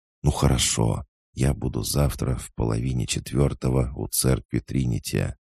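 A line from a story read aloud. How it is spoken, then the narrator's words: Quick whisper. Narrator (Russian): она быстро прошептала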